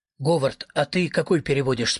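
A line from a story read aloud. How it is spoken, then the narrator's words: Plain. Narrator (Russian): спросил Рассол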